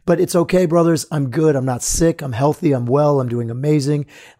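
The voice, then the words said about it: Strained, slightly hoarse voice. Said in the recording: “my voice is a little bit off. My vocal cords are a little bit torn up. It's almost like I've overworked them ... now they're sore”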